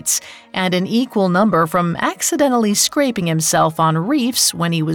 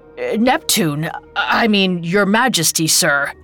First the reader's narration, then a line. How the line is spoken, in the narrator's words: he stammered